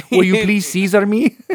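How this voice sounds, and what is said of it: Put-on Mexican accent. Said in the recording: “Does he suddenly have like a Mexican accent?”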